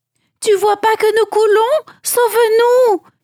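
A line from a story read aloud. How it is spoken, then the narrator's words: Disciples pleading. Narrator (French): supplièrent les disciples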